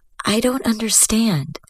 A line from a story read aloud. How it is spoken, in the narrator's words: Very quietly, she said